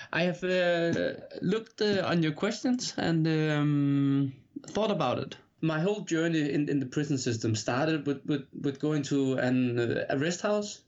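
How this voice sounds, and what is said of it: Heavy Danish accent. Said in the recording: “translate it from English to Danish and to bear with his heavy accent ... I hope you can bear over with my accent a little bit”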